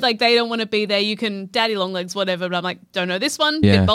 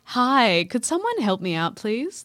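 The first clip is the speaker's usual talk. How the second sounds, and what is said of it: Customer service voice. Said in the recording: “This is my customer service voice.”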